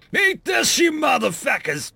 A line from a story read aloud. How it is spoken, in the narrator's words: Marcel roared